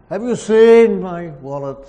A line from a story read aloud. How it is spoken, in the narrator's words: he shouted, bellowed down to his wife